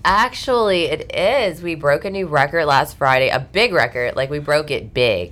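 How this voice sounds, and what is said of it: Congested, stuffy-nosed voice. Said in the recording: “I sound so congested”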